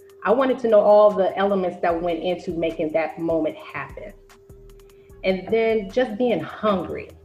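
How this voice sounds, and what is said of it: DC accent with slight southern twang. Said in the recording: “accent? What accent is that from? ... DC ... probably a southern twang in there ... I have probably a little bit of a twang, but definitely DC”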